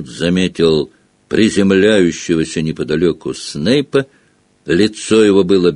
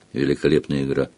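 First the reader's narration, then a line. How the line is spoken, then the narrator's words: Quiet, private. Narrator (Russian): негромко, чтобы его мог слышать только Гарри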